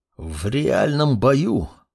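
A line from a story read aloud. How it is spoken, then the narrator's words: Through gritted teeth. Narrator (Russian): сквозь зубы произнес Мурмур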